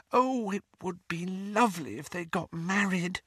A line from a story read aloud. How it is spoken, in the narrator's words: whispered Lily ecstatically